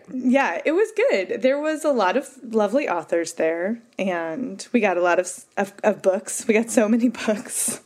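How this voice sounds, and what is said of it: Slightly hoarse voice. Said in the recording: “I'm still a little hoarse.”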